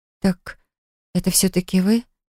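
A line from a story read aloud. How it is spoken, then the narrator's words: Muttered. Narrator (Russian): пробормотала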